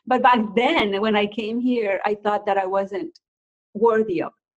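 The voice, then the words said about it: Non-native English accent. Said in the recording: “coming from another country not speaking perfect english ... I like my accent”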